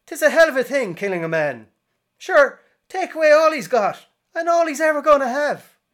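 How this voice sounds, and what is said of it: Exaggerated stage Irish leprechaun accent. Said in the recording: “do a bad Irish impression ... I'm going to do a leprechaun impression”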